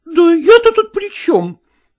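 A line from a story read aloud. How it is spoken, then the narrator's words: Exclaiming. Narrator (Russian): воскликнула Евгения Ивановна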